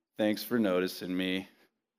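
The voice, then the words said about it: Bad Eeyore cartoon voice. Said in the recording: “bad Eeyore impression”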